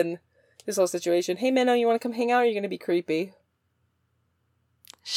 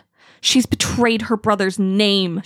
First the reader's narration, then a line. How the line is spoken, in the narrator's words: she spat